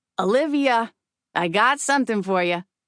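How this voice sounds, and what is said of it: Raspy Queens accent. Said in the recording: “she spits out in her raspy Queens accent”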